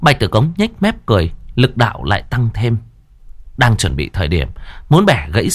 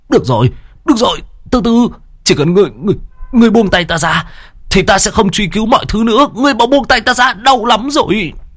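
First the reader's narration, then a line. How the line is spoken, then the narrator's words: Whimpering, near tears. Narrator (Vietnamese): mếu máo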